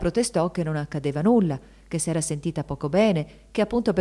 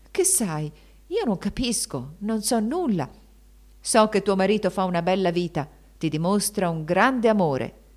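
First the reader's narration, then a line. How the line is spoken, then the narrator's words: Baron, veiled menacing exclamation. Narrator (Italian): esclamò il barone con voce gravida di sorde minacce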